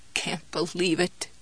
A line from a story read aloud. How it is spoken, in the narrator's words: she croaked